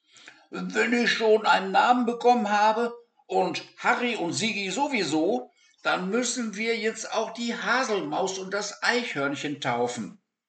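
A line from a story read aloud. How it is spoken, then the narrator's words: Laughing loud demand. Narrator (German): lachte Lancelot laut auf und forderte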